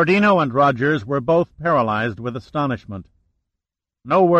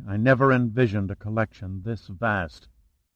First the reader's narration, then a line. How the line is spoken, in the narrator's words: Shannon murmured softly